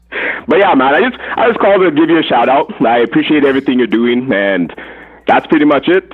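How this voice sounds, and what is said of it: Hint of Jamaican accent. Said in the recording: “I hear that Jamaican accent in there.”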